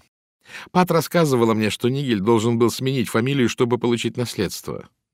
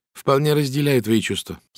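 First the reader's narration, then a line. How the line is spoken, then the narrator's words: Plain. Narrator (Russian): сказала Салли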